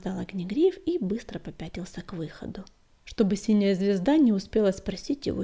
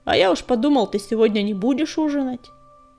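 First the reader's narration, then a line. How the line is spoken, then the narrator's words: Almost rude reply. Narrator (Russian): Огнегриф хотел сказать что-нибудь дружеское, но помимо воли ответ его прозвучал почти грубо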